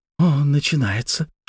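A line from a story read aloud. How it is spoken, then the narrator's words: Whisper in ear. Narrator (Russian): шепнула мне на ухо Светлана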